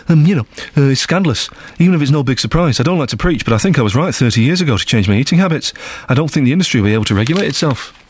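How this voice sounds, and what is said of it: Imitates another person's voice. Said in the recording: “That's my Paul McCartney impression”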